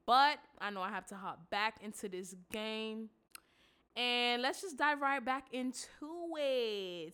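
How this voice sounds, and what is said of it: Congested, stuffy-nosed voice. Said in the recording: “I am a little, you know, under the weather. As you can hear in my voice, I just sound a little congested.”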